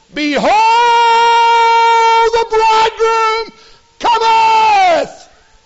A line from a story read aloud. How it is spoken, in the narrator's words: the shout of the church today